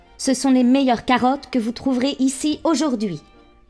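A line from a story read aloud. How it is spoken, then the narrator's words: Angry exclamation. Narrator (French): s'écria-t-il avec colère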